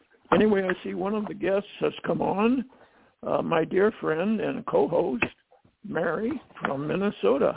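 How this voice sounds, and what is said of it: Slightly hoarse voice. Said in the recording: “I'm a little hoarse this morning”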